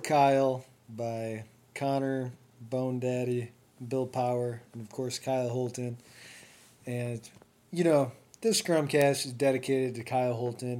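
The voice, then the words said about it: Voice sounds sick. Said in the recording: “you might be able to hear from my voice that I'm sick”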